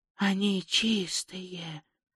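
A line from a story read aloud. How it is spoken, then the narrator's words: Whisper. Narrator (Russian): прошептал он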